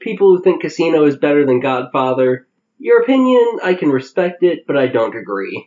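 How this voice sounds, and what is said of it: Usual voice. Nothing is said of it.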